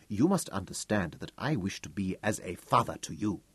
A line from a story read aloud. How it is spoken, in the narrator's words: smiled gently